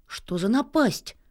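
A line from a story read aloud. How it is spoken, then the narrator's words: Exclaiming. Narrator (Russian): воскликнул Нильс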